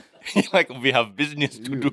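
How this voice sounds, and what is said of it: Put-on South African accent. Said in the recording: “Yeah, that was a perfect South African accent. ... Classic South African accent.”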